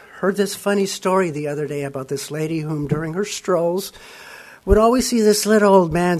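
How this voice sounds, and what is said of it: Voice roughened by a cold. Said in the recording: “Excuse my voice. I'm getting over a cold.”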